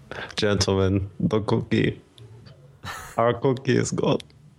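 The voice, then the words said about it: Put-on German accent. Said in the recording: “my German accent ... Pretty good.”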